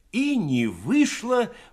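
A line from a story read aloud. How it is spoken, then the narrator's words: Exclaiming. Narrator (Russian): воскликнул Кабанков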